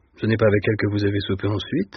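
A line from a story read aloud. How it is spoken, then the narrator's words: Plain. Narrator (French): demanda l'associé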